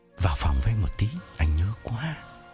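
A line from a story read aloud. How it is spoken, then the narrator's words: Whisper in ear. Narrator (Vietnamese): Phong ghé tai Hằng thì thầm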